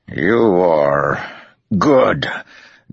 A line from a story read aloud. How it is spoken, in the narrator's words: Demandred said with a grunt